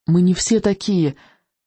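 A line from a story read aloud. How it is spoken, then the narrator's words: Hoarse wheeze. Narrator (Russian): только и смог просипеть он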